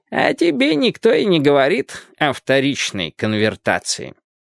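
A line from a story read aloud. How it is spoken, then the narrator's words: Muffled old man's voice. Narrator (Russian): глухо произнес старик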